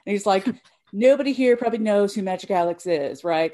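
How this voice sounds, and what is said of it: Imitates another person's voice. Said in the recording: “That's my Alan Kozin impression.”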